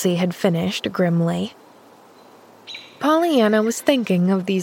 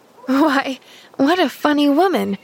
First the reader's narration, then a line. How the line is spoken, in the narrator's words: laughed Pollyanna